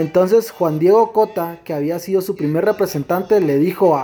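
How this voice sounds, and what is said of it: Usual voice. Nothing is said of it.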